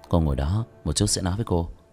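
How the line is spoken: Startled, faint smile. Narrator (Vietnamese): Vương Quân Diệt sợ hết hồn, khẽ mỉm cười

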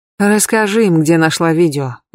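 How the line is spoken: Sigh. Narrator (Russian): вздохнул Тобиас

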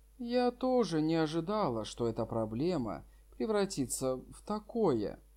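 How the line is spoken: Calm sigh, soft. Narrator (Russian): Лан Сюэже спокойно вздохнула и мягко произнесла

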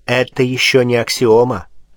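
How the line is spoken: Plain. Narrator (Russian): ответил Пушкин

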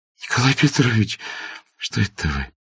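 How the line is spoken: Babbling. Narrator (Russian): пролепетала она

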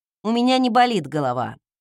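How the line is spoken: Grumbled. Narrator (Russian): буркнула я

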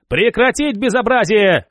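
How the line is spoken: Yelling. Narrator (Russian): заорал Звеневой

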